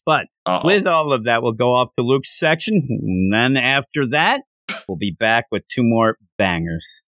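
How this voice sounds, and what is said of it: Sick, weakening voice. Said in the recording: “I hope you feel bad that I'm sick ... I'm already losing my voice.”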